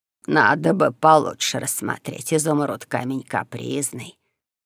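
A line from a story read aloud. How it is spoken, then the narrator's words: Grumbling. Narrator (Russian): заворчал, чуя, что выдал свой интерес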